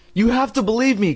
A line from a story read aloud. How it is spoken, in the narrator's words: Chris cried in a trembling voice